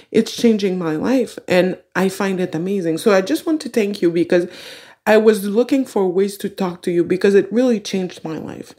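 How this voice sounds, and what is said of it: Speaks with a noticeable accent. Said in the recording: “I love your accent. I really love your accent.”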